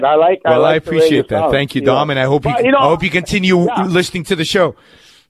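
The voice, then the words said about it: Mixed accent, somewhat New York. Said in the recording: “I detected somewhat of a New York accent... I have a mishmash of an accent. It doesn't really belong anywhere.”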